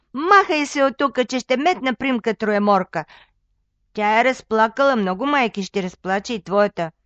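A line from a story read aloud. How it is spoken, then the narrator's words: Shouting. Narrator (Bulgarian): викнала на момъка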